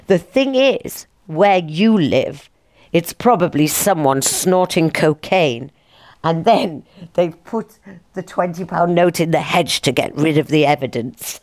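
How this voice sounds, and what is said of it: Put-on posh voice. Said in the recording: “doing a posh voice”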